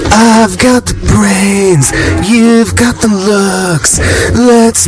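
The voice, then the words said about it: Sings imitating another person's voice. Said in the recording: “my Kim Gordon impression ... this is Kim Gordon singing”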